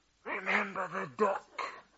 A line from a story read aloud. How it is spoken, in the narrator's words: she whispered